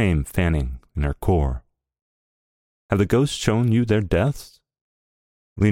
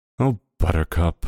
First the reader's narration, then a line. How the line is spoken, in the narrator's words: Barbara sighed